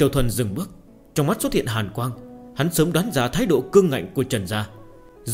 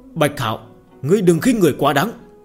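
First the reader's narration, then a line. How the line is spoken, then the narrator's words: Angry loud shout. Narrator (Vietnamese): sắc mặt tộc trưởng Trần gia giận dữ, hắn quát lớn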